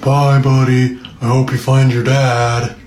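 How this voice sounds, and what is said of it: Imitates a cartoon narwhal's voice. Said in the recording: “my impression from the narwhal in that one scene in Elf”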